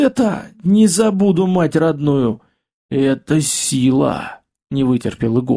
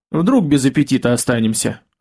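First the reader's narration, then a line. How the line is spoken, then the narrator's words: Smirking grunt. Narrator (Russian): хмыкнул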